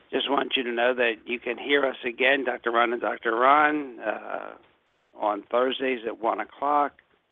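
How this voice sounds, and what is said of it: Strained, fading voice. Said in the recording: “I'm sort of losing my voice here tonight.”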